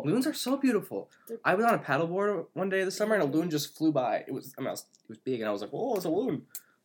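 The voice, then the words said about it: Midwestern American accent. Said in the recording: “That accent says a lot about you. The way you said, oh, there's a loon. ... It's the Midwest coming out of me.”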